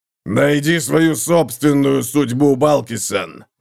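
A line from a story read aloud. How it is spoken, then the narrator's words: Roar. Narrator (Russian): взревел Готрек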